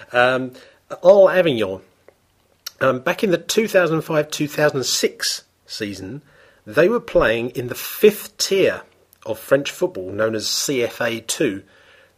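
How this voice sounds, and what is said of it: Hoarse, phlegmy throat. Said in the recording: “I've got a bit of a frog in my throat, ... I've had a bit of a cough recently. I do apologise if you're picking up any phlegm there.”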